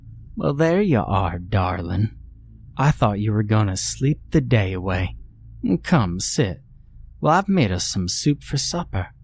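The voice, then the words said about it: Drawling accented character voice. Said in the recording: “Sadie drawled. Startled by her accent ... You sound different.”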